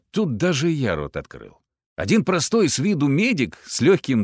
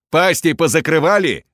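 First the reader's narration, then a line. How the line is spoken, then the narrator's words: Barked. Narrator (Russian): рявкнул медик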